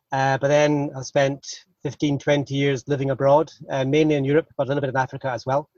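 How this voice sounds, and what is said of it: Scottish accent. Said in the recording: “I think probably everyone can hear from my accent. I hail from north of the border. I grew up in Scotland, in Aberdeen.”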